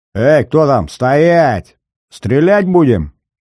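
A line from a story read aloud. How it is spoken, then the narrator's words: Menacing shout. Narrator (Russian): грозно прокричал пулеметчик в люльке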